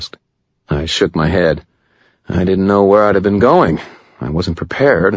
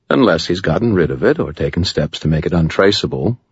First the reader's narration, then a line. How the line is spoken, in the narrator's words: Michael said in a patient, reasonable tone